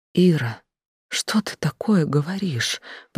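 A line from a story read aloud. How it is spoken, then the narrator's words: Faint whisper. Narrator (Russian): прошептала, еле шевеля губами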